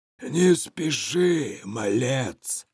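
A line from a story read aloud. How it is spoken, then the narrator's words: Hoarse voice. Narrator (Russian): раздался хриплый голос Мафусаила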